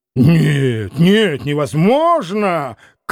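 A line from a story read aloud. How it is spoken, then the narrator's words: Frantic shout. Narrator (Russian): крикнул как бы не в себе Петр Александрович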